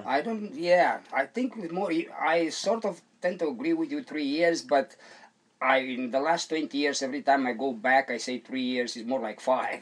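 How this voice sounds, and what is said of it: Eastern European accent. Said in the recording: “I heard ... accent, and I'm thinking, This fellow is from Eastern Europe.”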